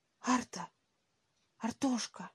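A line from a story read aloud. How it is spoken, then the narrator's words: Trembling whisper. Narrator (Russian): позвал Сергей дрожащим шепотом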